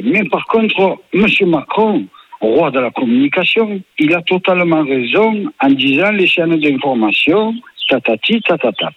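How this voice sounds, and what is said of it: Marseille accent. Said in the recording (French): “Il a un bel accent là. Il vient d'où cet accent? ... Il vient de Marseille.”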